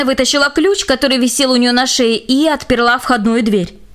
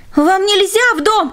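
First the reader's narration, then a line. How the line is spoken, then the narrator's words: Shouted. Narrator (Russian): закричал Джек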